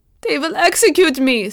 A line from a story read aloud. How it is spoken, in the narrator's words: sobbed Hebner